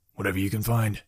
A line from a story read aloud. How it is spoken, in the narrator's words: Jack whispered over his shoulder